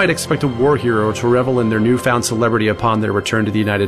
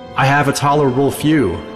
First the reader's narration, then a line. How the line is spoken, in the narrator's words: York replied